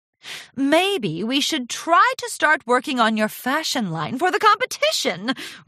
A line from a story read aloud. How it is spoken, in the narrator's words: Rarity exclaimed with delight